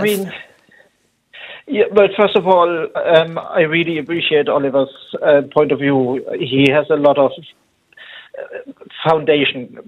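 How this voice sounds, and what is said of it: German accent in English. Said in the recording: “that's a German accent”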